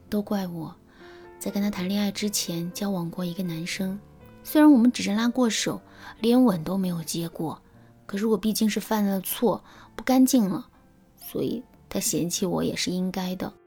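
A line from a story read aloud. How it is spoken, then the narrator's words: Dejected, sighing. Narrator (Chinese): 那姑娘的神色有些黯然，随即她叹了一口气，对我说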